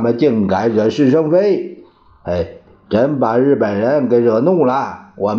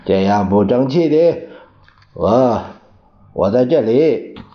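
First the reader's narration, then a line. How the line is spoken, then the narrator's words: Trembling voice. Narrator (Chinese): 蒋介石声音颤抖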